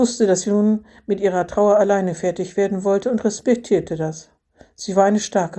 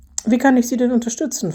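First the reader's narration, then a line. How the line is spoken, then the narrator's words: Plain question. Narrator (German): fragte er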